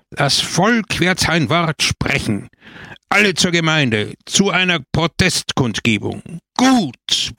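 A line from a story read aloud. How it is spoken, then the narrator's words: Crowd roaring. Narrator (German): brüllte das Volk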